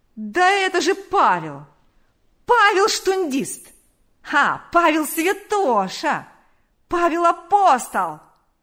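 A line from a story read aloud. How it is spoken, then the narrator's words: Yelling. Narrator (Russian): вопил он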